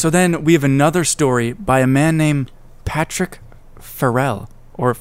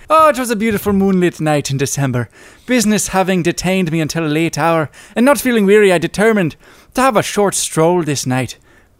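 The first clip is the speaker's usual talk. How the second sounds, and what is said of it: Put-on accent while reading. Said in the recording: “let me just get to my accent.”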